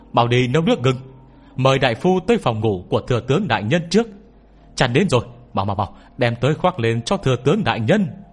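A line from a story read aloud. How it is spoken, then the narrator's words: Loud shout. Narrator (Vietnamese): có người hét lớn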